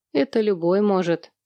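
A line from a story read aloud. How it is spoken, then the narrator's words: Calm reply. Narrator (Russian): спокойно ответил Наден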